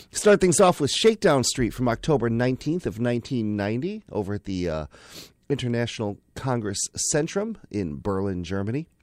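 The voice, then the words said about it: Rough voice from bad cough. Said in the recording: “I've got a terrible cough... my voice will be in better condition”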